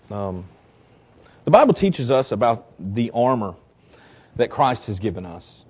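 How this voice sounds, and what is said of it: Choked-up, emotional voice. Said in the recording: “I'm getting a little choked up there.”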